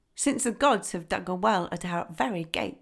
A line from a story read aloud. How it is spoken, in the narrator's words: they said